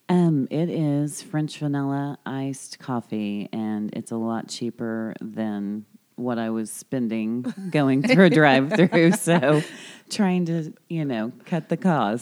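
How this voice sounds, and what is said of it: Perfect radio voice. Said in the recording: “I love ... voice... She's got like the perfect like radio voice... I could like listen to it all day.”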